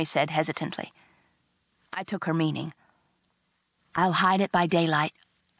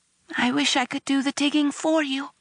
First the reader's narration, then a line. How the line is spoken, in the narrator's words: she said wistfully